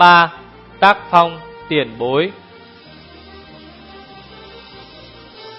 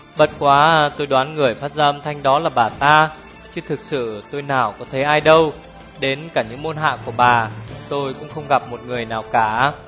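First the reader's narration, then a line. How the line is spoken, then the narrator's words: Sighing. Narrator (Vietnamese): Liễu Vô Mi thở dài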